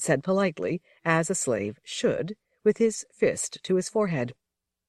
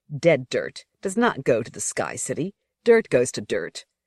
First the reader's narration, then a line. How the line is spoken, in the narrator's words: Bella, however, was so disturbed that he said sharply